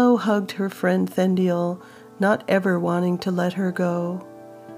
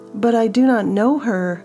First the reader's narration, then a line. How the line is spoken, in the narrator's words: Willow cried in protest